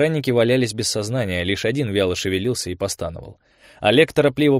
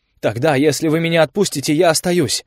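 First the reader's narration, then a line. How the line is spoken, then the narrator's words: Hurried, fearful. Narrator (Russian): Эрик говорил торопливо, боялся, что его не будут слушать или заткнут глотку выстрелом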